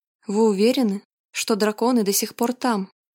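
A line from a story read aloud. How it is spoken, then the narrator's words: Plain. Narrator (Russian): спросил Грег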